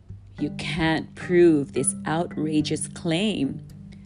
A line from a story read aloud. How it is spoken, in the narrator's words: snarled the tiger